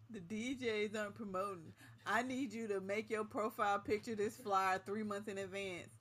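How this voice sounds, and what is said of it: Put-on complaining voice. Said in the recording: “I'm about to do my complaint voice again.”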